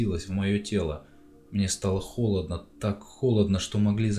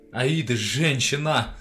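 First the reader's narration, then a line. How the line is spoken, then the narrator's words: Yelling. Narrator (Russian): заорал я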